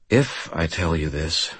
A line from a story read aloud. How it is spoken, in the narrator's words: I said quietly